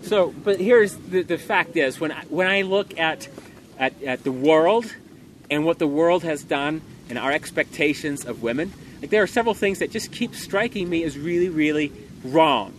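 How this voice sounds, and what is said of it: Loud, almost yelling speech. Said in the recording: “I'm having to speak loud, so it's a little bit like I'm yelling”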